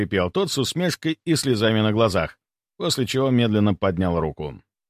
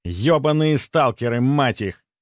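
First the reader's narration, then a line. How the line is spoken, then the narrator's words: Irritated, curt. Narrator (Russian): раздраженно бросил тот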